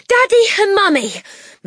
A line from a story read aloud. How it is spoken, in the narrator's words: Matilda burst out, gasping for breath